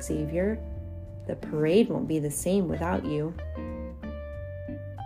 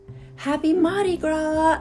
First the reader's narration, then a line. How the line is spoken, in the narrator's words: I shout to the crowd